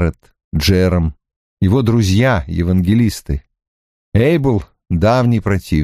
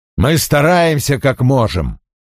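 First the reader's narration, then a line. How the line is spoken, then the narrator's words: Sharp reply. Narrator (Russian): Кингстон отвечает резко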